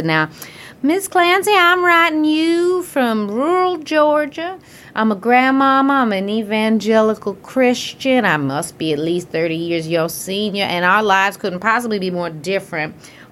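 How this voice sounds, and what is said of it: Deliberately bad Southern accent. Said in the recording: “I'm going to do a Southern accent for you, which will be bad”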